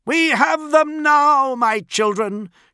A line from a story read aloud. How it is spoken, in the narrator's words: shouted Fulgrim